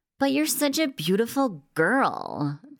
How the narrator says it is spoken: the DJ groaned

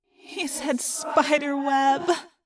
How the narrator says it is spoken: Rachel moaned

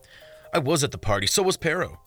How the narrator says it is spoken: Rovelsky snapped

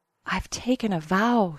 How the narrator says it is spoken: whispered

